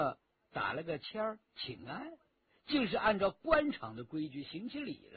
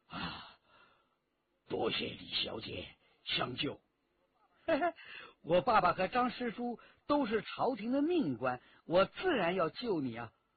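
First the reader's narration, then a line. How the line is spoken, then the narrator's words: Out of breath. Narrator (Chinese): 喘了一口长气，对李元直说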